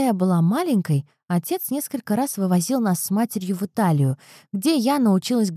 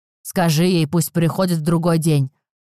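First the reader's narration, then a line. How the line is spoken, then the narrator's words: Father grumbling. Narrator (Russian): проворчал отец Розы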